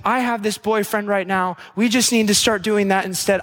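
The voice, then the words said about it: Affected girly voice. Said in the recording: “I don't know why I'm doing a girl voice. I don't know. It's a metrosexual voice.”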